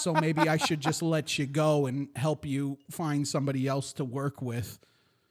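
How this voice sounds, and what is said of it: Put-on New York Jewish accent. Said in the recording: “like a New York Jew accent? ... Yeah, I guess.”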